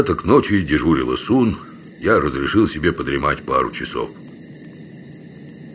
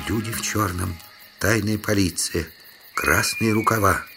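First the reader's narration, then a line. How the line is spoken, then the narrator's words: Whisper in ear. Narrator (Russian): кто-то прошептал мне на ухо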